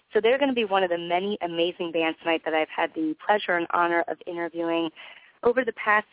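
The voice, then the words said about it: Voice affected by illness. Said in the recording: “Kindly excuse my voice. I've been on the under the weather a little bit”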